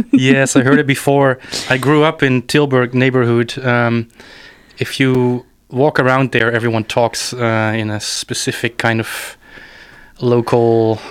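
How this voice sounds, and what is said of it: Mixed Dutch and Saxon German accent. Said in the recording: “dein Dialekt, / Akzent, your dialect or your accent, it's really funny. I think it's mixed Dutch and Saxon German.”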